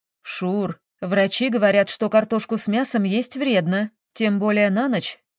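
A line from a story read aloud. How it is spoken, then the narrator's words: Plain. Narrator (Russian): сказала Мирослава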